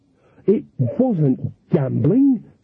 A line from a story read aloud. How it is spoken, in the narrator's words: snapped Nanny